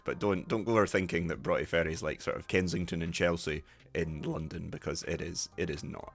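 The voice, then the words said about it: Scottish Dundee-area accent. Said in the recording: “is my accent typical for sort of Broughty Ferry, that kind of area? Yes.”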